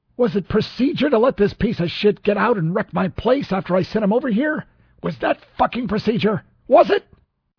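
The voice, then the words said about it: Furious, about-to-explode delivery. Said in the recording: “did a good impression of a man about to explode with fury.”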